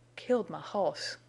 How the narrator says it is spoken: he panted

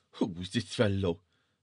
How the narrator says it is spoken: said Allwise the dwarf scornfully

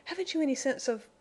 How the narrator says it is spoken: He choked back speech

